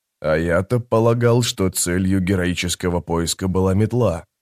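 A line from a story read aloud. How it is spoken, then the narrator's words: Muttering. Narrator (Russian): пробормотал Трель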